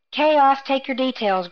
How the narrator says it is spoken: Grammel Esada shouted

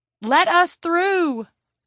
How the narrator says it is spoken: yelled

